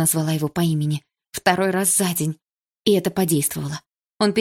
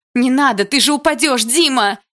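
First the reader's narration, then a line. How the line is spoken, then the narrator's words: Frightened shout. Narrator (Russian): испуганно закричала я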